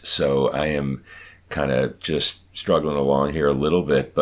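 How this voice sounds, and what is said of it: Congested voice from head cold. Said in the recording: “I am suffering from a pretty tough head cold right now, as listeners may hear in my voice.”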